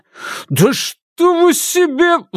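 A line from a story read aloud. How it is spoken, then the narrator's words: Roar. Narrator (Russian): взревел Никита Понютин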